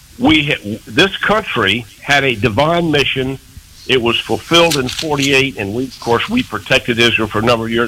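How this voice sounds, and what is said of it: Strained, troubled voice. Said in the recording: “excuse me, my voice is giving me trouble here today.”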